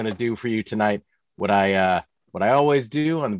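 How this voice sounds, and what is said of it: Usual voice. Nothing is said of it.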